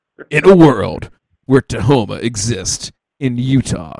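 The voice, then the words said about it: Dramatic movie trailer narrator voice. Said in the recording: “This is like movie trailer shit... do the movie theater voice.”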